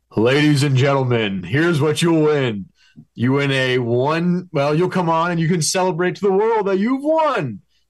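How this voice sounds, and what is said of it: Prize fight announcer voice. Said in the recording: “announcer voice. I want your prize fight announcer voice.”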